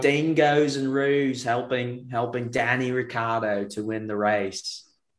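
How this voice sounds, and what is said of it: Put-on Australian accent. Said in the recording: “Gotta bring in the accent”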